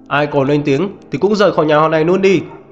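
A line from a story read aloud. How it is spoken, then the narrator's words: Angry shout. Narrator (Vietnamese): Diệp Pháp Hồng hét lên giận dữ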